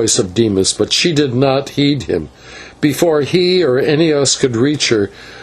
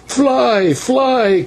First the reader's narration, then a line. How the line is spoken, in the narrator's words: cried a voice